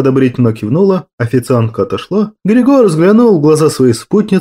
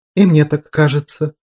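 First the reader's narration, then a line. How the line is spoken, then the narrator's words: Whisper. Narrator (Russian): прошептала она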